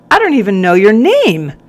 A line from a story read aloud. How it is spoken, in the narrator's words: he blurted out